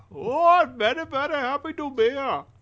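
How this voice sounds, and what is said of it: Imitates another person's voice. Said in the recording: “Doing an impression of Deepak Chopra”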